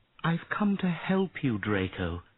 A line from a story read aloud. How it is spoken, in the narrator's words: she said sadly